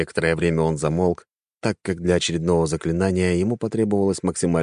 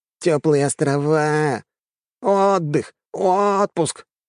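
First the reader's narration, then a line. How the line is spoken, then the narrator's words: Nasal mocking drone. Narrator (Russian): гундел он гнусавым голосом, изображая своего начальника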